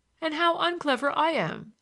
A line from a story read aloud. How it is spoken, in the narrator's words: said the clergyman, laughing